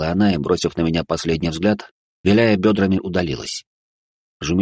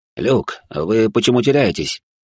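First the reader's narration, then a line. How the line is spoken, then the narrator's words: Displeased question. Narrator (Russian): недовольным голосом спросил он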